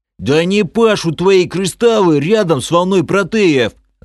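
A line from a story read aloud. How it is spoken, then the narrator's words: Yelling. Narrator (Russian): заорал полуорк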